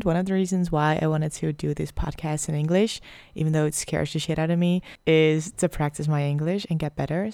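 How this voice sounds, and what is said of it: Dutch accent in English. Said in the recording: “I'm Dutch, so please excuse my accent ... I have a little bit of a weird accent sometimes”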